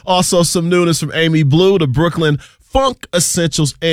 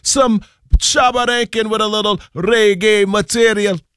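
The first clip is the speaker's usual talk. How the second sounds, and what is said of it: Weak put-on reggae accent. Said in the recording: “that trash accent ... I know the accent was weak”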